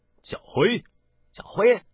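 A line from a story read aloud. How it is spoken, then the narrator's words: Two voices calling together. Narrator (Chinese): 宋大人与杜碧书同时叫了出来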